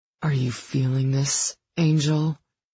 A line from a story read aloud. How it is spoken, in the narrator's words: he demanded, his voice gruff with desire